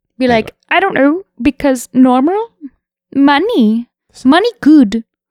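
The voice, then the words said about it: Imitates another person's voice. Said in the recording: “really good impression ... That's a pretty good one, right?”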